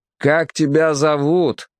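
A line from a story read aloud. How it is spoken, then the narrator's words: Shouted question. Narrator (Russian): крикнул капитан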